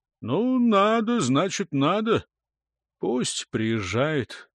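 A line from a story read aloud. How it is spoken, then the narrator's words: Reluctant mumble after sigh. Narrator (Russian): Дядя на мамину просьбу по телефону сначала долго молчал в трубку, а затем, глубоко вздохнув, пробормотал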